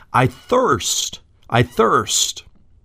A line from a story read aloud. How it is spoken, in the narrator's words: he cried out